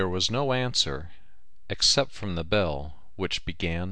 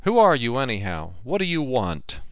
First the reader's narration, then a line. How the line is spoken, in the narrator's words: I called out as loudly as I could